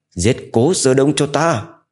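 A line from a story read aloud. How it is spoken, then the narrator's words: Loud shout. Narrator (Vietnamese): hét lớn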